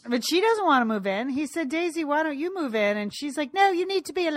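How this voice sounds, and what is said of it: Usual voice. Nothing is said of it.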